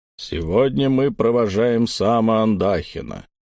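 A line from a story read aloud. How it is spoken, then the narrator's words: Low voice. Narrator (Russian): низким голосом заговорил его напарник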